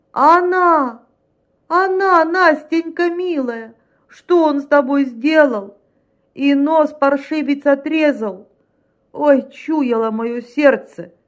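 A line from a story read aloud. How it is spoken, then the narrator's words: Wailing. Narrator (Russian): Тот завопил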